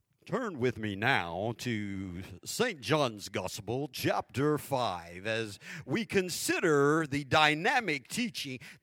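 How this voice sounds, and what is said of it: Fake preacher pulpit voice. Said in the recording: “Fake voice.”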